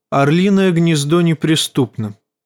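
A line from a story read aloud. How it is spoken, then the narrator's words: Calm voice. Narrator (Russian): спокойным голосом проговорила Лиза Арен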